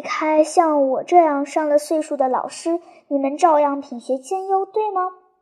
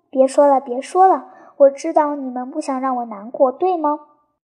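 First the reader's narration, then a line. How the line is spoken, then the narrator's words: Sighing teacher. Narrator (Chinese): 老师说完，叹了一口气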